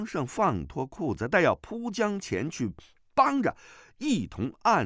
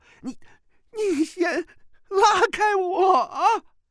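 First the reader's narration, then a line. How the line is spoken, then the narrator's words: Wailing scream. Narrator (Chinese): 那叫声几乎有如嚎哭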